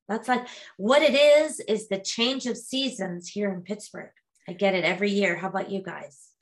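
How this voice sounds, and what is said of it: Congested, snuffly voice from a cold. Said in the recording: “you're snuffly ... it's a cold”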